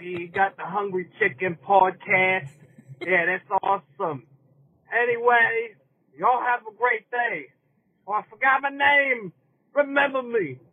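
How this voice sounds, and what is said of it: Bad New York accent. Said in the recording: “was he doing a bad New York accent? ... whether he was faking that accent or that is legitimately his accent. I think he's faking it.”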